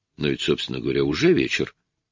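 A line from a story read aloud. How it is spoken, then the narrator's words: Confused, bewildered. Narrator (Russian): растерянно проговорила Анжела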